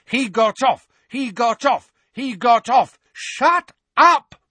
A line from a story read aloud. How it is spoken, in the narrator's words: roared Mrs